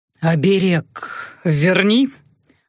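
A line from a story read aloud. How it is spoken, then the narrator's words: Hoarse, commanding, full of desire. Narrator (Russian): велел Эльдар хриплым от желания голосом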